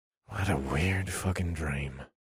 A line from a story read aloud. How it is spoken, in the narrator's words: I muttered to myself